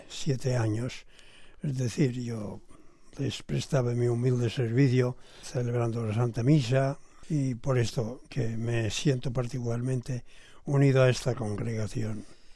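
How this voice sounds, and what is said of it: Catalan-accented Spanish. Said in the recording (Spanish): “Por su voz, por su acento, vemos que es catalán”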